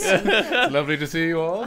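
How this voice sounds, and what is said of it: Put-on posh royal English accent. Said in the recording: “Are you practicing your royal way?... I'm really leaning into your posh.”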